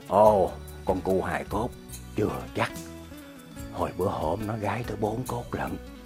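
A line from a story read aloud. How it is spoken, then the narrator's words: Whispered. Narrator (Vietnamese): Ông nói thì thầm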